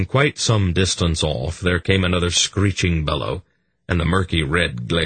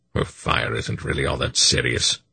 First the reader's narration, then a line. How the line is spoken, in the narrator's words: Belgarath continued in the same low voice